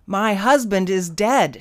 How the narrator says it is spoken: she shouted into the receiver

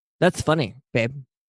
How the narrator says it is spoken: Peter flatly stated

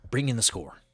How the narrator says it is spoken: says Maverick

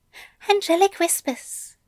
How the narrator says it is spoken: Aziraphale said quickly, his voice somehow even quieter than it had been before

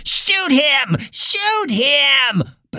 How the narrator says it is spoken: Drouillard was on his knees, cradling his bleeding right arm and screaming

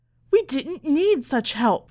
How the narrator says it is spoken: Mother cried

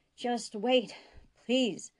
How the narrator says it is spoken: Sisko said, panting

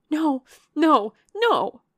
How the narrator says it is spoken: cried Marianne wildly

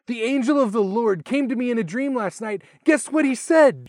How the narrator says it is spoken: Joseph exclaimed

